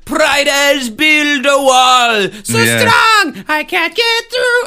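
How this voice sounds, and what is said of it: Put-on German accent, singing. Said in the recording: “you can definitely hear the German accent there”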